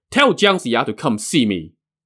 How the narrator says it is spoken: shouted

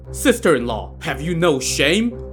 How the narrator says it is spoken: snapped

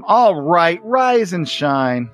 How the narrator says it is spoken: She yells at him

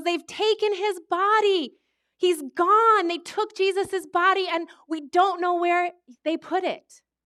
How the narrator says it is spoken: she yells

